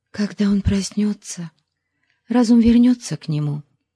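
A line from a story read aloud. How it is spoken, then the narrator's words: Whisper. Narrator (Russian): прошептала Забиби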